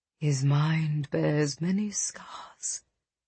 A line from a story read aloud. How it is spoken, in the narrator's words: Zara whispered